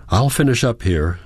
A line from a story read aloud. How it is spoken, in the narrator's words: says Ingrid